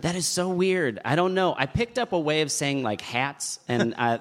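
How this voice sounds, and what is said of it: Midwestern American accent. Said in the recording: “You sound like you have like a Midwest accent ... the most kind of corn-fed Midwest guy”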